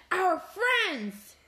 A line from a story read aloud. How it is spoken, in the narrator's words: she gasps